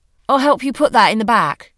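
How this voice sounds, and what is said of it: British accent. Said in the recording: “he said, with a British accent.”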